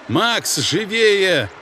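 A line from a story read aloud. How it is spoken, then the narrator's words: Commander shouting. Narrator (Russian): крикнул командир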